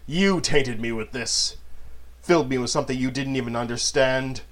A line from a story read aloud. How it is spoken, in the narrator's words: Manon growled